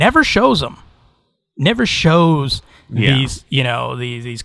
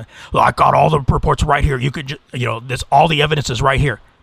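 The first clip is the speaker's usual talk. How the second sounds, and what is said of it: Imitates another person's voice. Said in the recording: “this is my impression of him”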